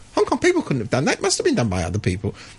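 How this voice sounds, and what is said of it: Imitates another person's voice. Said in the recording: “it's very good impersonation.”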